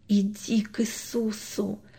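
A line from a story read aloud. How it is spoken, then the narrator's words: Soundless whisper. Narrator (Russian): беззвучно прошептал папа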